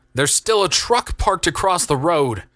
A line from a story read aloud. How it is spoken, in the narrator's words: shouted Jonathan